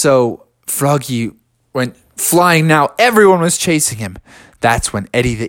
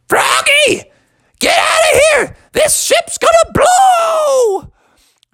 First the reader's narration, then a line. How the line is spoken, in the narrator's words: he screamed at Froggy